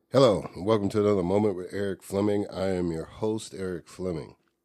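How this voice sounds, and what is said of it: Hoarse voice, lingering cold. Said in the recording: “I had to power through my laryngitis ... This week, I guess it's still some of the after effects. And been dealing with a cold.”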